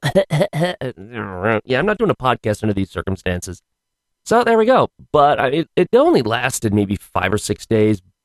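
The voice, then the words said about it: Rough, unwell-sounding voice. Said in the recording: “my voice was, you think my voice is bad now, if you can tell the difference? Yeah, it was worse last week.”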